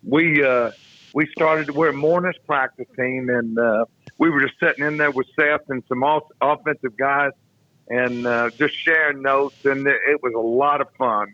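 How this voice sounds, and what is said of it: Slightly hoarse voice. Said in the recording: “I'm a little bit hoarse.”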